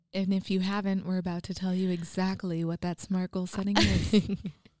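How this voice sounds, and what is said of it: Put-on radio announcer voice. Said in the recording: “radio voice of mine ... Radio voice ... It was sexy ... It was weird”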